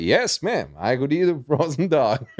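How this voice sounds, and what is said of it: Put-on American accent. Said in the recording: “can you do an American accent? ... most American accent I could do that”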